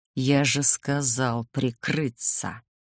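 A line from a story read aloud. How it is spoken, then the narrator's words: Irritated demon hissing. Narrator (Russian): Раздраженно прошипел демон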